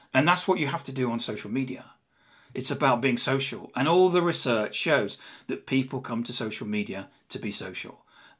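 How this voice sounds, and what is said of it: English accent. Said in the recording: “I'm English. You can probably tell from my accent.”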